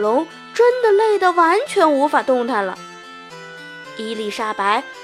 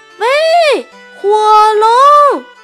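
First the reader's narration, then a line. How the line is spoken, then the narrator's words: Loudest possible shout. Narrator (Chinese): 尽可能的大声地喊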